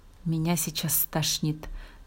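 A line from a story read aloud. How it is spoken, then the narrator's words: Mumbled. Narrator (Russian): пробормотала Алина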